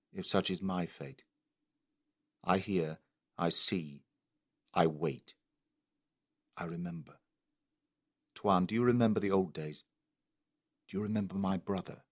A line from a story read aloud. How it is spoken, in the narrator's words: said Arsat calmly